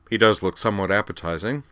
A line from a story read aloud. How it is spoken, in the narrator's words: the Horta replied dryly